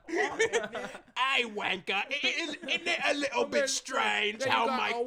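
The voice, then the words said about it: Put-on British accent. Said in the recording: “English. ... British. ... I can't do an accent.”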